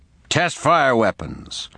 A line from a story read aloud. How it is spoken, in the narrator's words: The lieutenant shouted